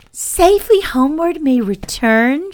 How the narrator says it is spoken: she exclaimed

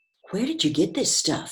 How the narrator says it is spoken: he said

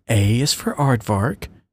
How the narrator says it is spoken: Anne muttered to herself

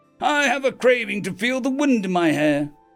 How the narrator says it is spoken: the Captain Tane cried

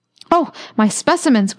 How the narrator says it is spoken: cried the doctor

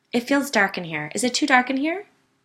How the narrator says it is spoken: demanded nervously

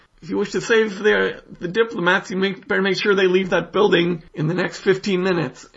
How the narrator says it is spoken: Margie shouts

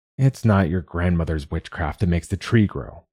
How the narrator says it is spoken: her father had growled at Sigun, irritated

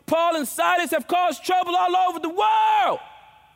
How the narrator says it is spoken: they shouted

